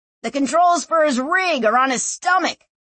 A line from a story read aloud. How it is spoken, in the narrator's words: Clef shouted at her